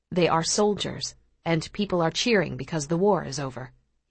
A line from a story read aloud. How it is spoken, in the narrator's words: he replies quietly